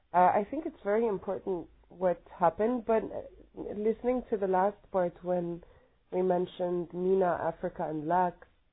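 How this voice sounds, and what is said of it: Sick, strained voice. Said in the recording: “sorry about my voice, I'm really sick”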